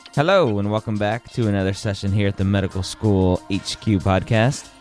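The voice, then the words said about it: Slightly weird, congested voice. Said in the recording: “if my voice sounds a little weird. I am battling a little cold”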